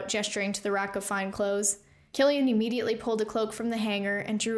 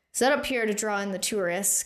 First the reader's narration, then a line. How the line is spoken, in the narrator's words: Killian sighed heavily